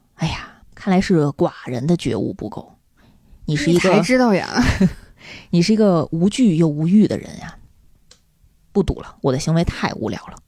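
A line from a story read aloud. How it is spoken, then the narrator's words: Laughing. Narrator (Chinese): 蚁王就笑了，说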